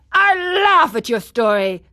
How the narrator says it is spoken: cried the man angrily

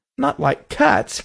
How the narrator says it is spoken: cried the mouse in a shrill, passionate voice

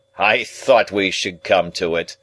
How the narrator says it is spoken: Jaggers said triumphantly

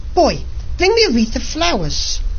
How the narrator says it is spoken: cried to him

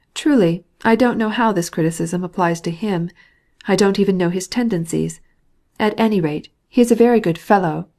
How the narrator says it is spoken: replied Stepan Arkadyevitch

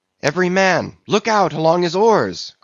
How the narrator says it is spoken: cried Starbuck

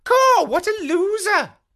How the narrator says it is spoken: She exclaimed

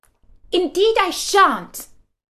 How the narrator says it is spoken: Alice said rather impatiently

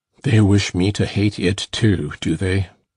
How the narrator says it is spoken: smiled grimly, and observed

